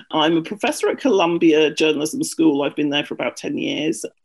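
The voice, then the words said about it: British accent. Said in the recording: “I'm British, which you may have guessed by my accent.”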